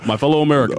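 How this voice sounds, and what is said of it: Barack Obama impression. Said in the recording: “does a good Obama.”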